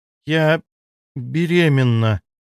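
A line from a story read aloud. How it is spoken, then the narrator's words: Slow, savoring the word. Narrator (Russian): произнесла она медленно, как будто пробуя слово на вкус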